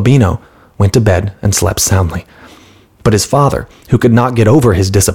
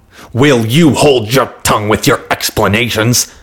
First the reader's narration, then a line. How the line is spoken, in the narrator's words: shouted the merchant